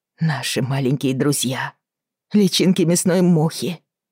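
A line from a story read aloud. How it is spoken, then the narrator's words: Groan. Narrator (Russian): простонала Бриана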